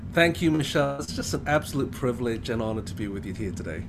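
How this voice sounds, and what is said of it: Mixed British-influenced accent. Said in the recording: “you hear this accent ... I've got this kind of mixture of British,”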